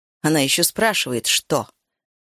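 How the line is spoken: Snorting. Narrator (Russian): Сиобан фыркнула

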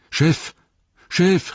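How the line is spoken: Called out. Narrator (German): rief

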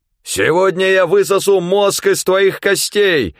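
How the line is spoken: Monstrous yelling. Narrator (Russian): орало оно

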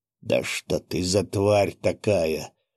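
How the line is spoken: Hoarse wheeze. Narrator (Russian): засипел блондин

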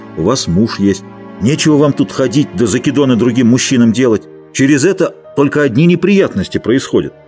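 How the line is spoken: Angry. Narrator (Russian): Он сказал сердито

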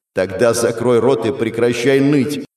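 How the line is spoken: Barked. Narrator (Russian): рявкнул я

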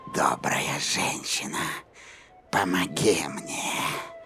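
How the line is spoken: Old woman's hoarse wheeze. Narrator (Russian): прохрипела старуха

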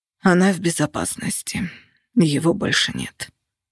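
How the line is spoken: Hoarse reply. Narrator (Russian): хрипло ответил Костя

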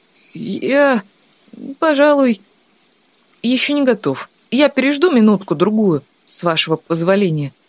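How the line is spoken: Mumbling. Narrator (Russian): промямлил Тан

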